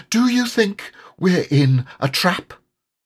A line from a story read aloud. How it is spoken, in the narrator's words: he went on nervously